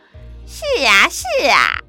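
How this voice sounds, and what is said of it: Imitated fox spirit voice. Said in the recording (Chinese): “老婆婆故意假装狐狸精的声音说”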